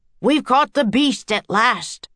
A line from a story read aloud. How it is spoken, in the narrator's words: shouted Joe